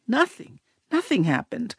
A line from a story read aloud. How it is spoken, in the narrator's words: And I kept mumbling